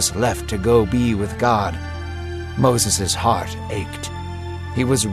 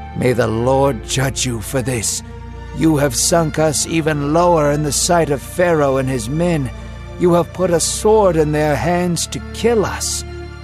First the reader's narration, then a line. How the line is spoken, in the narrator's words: They groaned and said